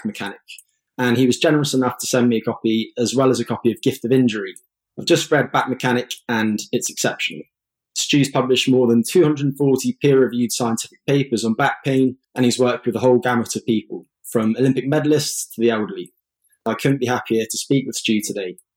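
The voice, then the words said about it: English accent. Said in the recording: “people can tell with your accent you're located in England”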